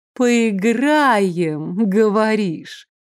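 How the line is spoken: Low, velvety purr. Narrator (Russian): Голос ее стал низким и мурлыкающим, словно бархатом скользнул по душевой

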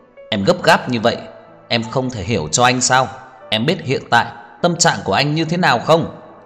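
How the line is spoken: Agitated angry outburst. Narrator (Vietnamese): Tưởng Thiên Lỗi tức giận, lại kích động giống lên

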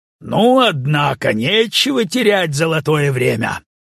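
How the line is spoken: Loud. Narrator (Russian): громко говорит

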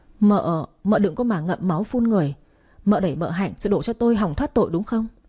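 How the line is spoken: Stammering. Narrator (Vietnamese): Vũ Quý lắp bắp

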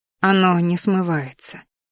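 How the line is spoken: Heavy sigh. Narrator (Russian): шумно вздохнула Ди

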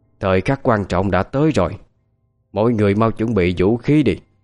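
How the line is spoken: Woman calling loudly. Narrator (Vietnamese): bà chủ quán lại hô to

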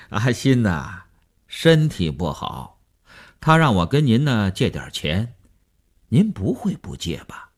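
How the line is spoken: Chuckling, blunt, over phone. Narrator (Chinese): 那个人在电话里嘿嘿地笑了，直截了当地说

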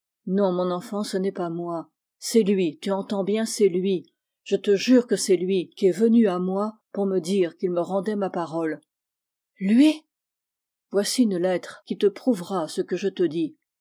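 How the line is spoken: Solemn voice. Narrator (French): d'une voix solennelle

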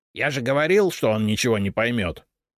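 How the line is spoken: Snort. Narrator (Russian): фыркнул Репей

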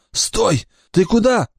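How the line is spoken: Cried out. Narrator (Russian): вскрикнул Маркус

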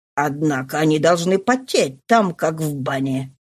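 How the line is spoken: Muttered. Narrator (Russian): пробормотал Лафолуас

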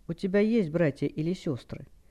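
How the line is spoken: Icy tone. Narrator (Russian): ледяным тоном спросил

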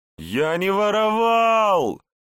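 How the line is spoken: Pained shout. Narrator (Russian): кривясь от боли, закричал Егор

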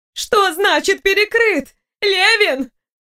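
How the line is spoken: Demanding shout. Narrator (Russian): Зои закричала, требуя разъяснений

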